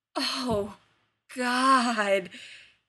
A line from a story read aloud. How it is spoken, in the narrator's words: groans, a guttural moan